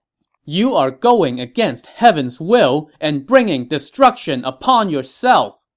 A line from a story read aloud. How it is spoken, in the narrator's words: Gong Zhi shouted